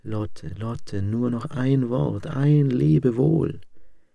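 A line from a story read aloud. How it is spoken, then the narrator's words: Soft calling voice. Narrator (German): rief mit leiser Stimme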